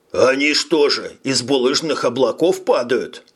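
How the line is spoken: Question with forced laugh. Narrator (Russian): спросил Хирш, деланно рассмеявшись

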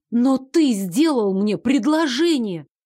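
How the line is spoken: Exclaiming. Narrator (Russian): воскликнула я

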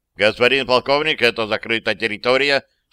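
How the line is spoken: Plain. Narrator (Russian): сказал сержант

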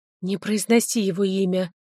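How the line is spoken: Bitter exhaled words. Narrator (Russian): с горечью выдохнула я

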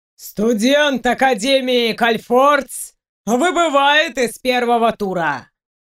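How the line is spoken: Booming creature voice. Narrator (Russian): Прогремел голос ящерки

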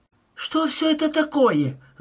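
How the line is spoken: Screaming. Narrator (Russian): закричала Шейла

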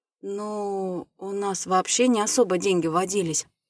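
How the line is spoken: Mumbling. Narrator (Russian): замямлил я

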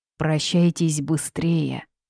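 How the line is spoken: Moaning demon. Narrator (Russian): простонал демон

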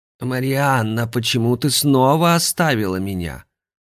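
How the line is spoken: Displeased hoarse old woman's voice. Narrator (Russian): Недовольно спросила она хриплым старушечьим голосом

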